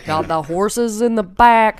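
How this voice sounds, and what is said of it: Imitates a rapper's ridiculous Western-style accent. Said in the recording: “has this ridiculous accent ... It's like when black people try to do like a Western”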